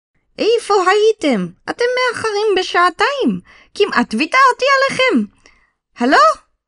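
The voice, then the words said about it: Energetic female voice, unfamiliar accent. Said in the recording (Hebrew): “צעקה נשית ונמרצת ... היא דיברה במבטא שהארי לא הצליח לזהות”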